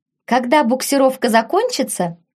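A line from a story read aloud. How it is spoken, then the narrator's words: Cheerful shout, young woman. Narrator (Russian): весело прокричала одна из девушек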